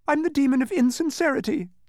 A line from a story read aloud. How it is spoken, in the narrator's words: he sobbed